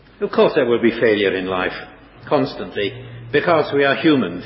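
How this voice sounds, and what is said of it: English accent. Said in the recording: “my English one”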